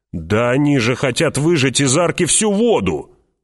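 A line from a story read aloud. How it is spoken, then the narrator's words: Indignant shout. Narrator (Russian): возмущенно крикнул человек с лучеметом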